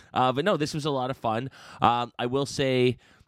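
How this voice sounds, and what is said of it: Usual voice. Nothing is said of it.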